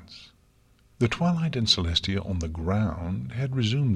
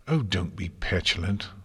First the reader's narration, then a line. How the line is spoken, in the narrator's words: Luna said irritably